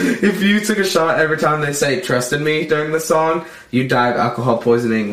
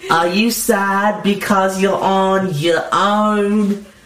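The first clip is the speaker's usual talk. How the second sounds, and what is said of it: Thick nasal accent, imitating someone. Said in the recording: “my best George Harrison impression... He has a very thick accent. His accent was 1,000% the most thick of theirs... He was also nasally.”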